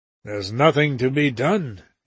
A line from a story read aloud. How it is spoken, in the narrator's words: he answered almost dryly